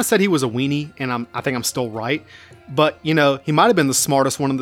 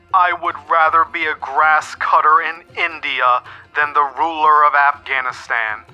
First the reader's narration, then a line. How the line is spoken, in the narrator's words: moaning